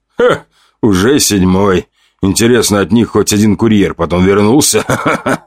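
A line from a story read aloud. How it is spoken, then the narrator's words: Man laughing loudly. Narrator (Russian): расхохотался мужчина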